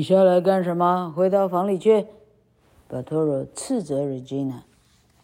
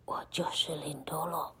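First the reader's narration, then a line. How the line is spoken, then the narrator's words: Whispered. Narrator (Chinese): 公爵小声地说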